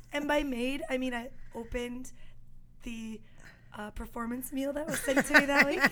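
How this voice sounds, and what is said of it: Hoarse, mostly lost voice. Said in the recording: “I lost my voice. That's why I sound like this.”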